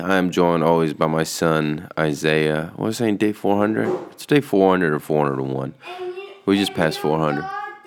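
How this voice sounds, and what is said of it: Sick, under-the-weather voice. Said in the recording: “been under the weather. The whole family's really been under the weather. You can kind of hear it in my voice.”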